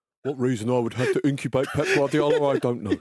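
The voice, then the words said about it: Imitates another person's voice. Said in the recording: “That's a good Roy impression.”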